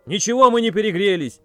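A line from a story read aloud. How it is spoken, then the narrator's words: Furious yell. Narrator (Russian): заорал в конец взбешенный Колян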